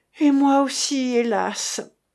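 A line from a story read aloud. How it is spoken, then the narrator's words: Strange moaning voice. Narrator (French): gémit Cécilie d'une voix étrange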